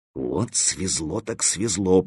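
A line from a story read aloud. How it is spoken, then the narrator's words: Muttering. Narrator (Russian): пробормотал Стопка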